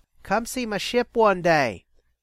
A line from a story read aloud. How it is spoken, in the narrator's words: Jethk called out after them